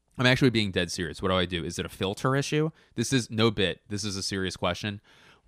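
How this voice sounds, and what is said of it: Scratchy, strained voice. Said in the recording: “my throat, my voice has been going ... my voice to get a little scratchy? So itchy and scratchy.”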